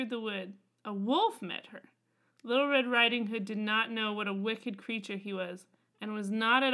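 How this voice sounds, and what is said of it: Usual voice. Nothing is said of it.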